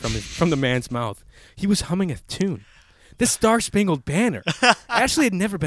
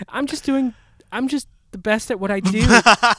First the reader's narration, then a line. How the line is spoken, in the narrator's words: giggled Ashley